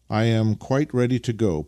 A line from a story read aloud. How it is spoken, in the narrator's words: put in Nikita cheerfully